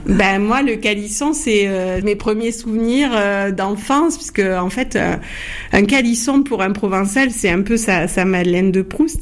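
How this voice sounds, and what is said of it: Provençal French accent. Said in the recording (French): “Mon accent provençal”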